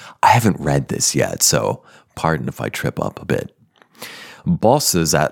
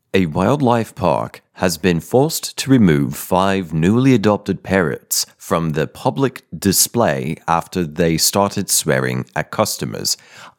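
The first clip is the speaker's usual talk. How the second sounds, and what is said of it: Silly news broadcaster voice. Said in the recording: “Let's read in a silly accent. ... like a broadcaster. Not like a sports broadcaster, but a news broadcaster.”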